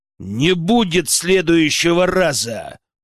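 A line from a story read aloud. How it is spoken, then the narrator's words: Growl. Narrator (Russian): прорычал я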